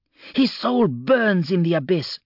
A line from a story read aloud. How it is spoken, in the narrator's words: snapped Darzi